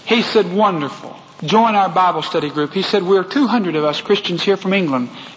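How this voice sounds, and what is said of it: Strong Texas accent. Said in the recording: “my very Texas accent”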